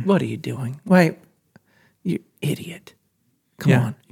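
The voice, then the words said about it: Muttered sad dad voice. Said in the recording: “under my breath ... sad dad voice”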